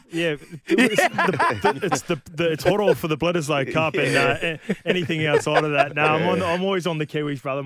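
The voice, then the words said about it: Speaks with a noticeable accent. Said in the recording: “Despite the accent”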